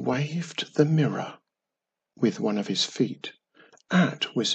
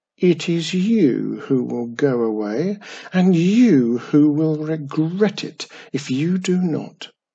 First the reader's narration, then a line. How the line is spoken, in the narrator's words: the old crow cawed sickeningly as he waved the mirror triumphantly